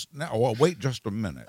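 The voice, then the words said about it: Good Jimmy Stewart impression. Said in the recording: “the first impression that I've ever heard you do ... It was really good. It was a good Jimmy Stewart impression.”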